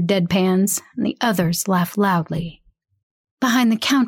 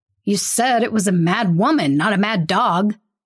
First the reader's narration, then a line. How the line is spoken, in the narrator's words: one of the policemen snaps